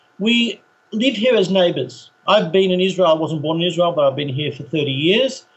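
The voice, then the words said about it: Australian English accent. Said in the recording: “Originally from Australia, we should say. We could tell by the accent. ... I've been here for 30 years, and I still haven't lost it.”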